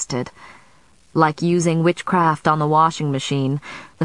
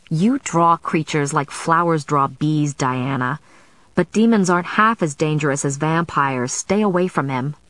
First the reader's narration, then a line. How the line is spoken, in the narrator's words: Sarah said tightly